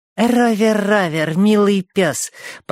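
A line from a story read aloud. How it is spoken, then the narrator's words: Sugary singsong. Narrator (Russian): пропел он сладеньким голоском, который Гарриет терпеть не могла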